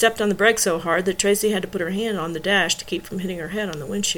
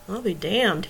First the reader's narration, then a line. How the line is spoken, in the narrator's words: muttered